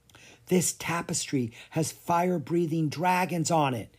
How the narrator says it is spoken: he whispered

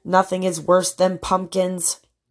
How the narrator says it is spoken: groaned the townspeople

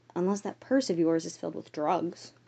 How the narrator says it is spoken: Natalie whispered back

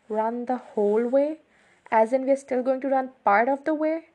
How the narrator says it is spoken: My voice edged up a few octaves

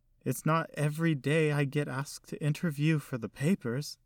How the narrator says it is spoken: said in a shaky voice

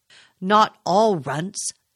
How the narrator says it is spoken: Duncan exclaimed in surprise

